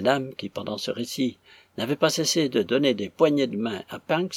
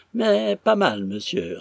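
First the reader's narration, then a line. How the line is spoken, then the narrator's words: Triumphant. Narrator (French): répondit Punks d'un ton de triomphe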